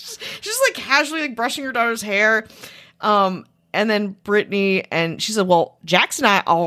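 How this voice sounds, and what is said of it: Usual voice. Nothing is said of it.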